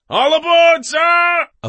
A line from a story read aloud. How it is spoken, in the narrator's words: a voice shouted